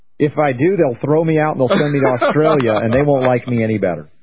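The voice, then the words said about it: American southern twang. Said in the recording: “my southern twang ... They don't hear southerners that often over there.”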